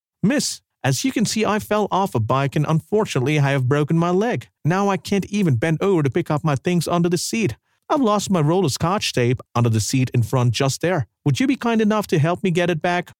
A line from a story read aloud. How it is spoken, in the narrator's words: Suddenly, the young man called out to her